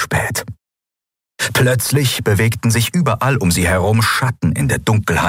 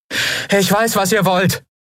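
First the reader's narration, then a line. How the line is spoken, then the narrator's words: Calling into the woods. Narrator (German): rief Andriel in den Wald hinein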